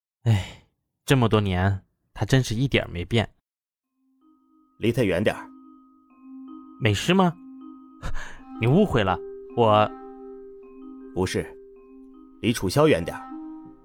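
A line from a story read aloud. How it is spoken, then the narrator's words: Involuntary sigh. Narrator (Chinese): 刘子豪不由自主的感叹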